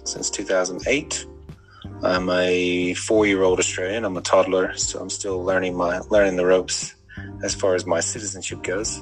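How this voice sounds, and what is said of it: American accent. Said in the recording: “for those with uh, listening to accents very well, um, I'm uh, just a filthy migrant from the US.”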